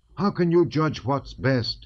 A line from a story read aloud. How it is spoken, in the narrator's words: he cried, the blood suddenly rushing to his face